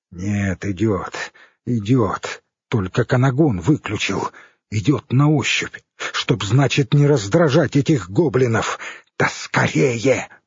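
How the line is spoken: Hissing. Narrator (Russian): прошипел Хорь

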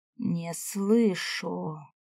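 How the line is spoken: Hissed in face. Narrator (Russian): Прошипел он мне в лицо

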